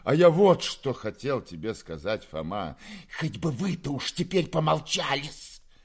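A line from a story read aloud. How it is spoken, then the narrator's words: Malicious hiss. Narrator (Russian): прошипела Перепелицына, злобно сверкнув своими змеиными глазками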